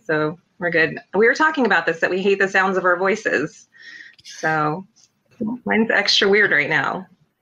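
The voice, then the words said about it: Raspy voice. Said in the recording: “My voice is raspy right now from the fight last night”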